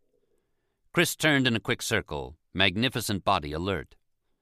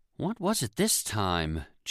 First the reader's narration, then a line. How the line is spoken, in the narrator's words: Jean asked wearily